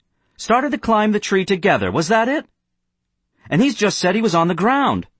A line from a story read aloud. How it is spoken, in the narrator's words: the boy on the platform went on harshly